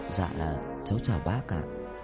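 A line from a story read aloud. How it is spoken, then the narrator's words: Quiet voice. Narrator (Vietnamese): nhỏ giọng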